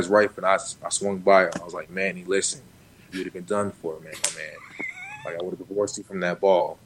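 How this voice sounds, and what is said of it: Imitates another person's voice. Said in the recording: “That's a pretty good Manny impression, actually.”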